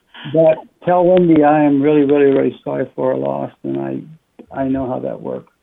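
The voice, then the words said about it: Voice sounds congested from a cold. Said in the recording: “I've got a bit of a cold,”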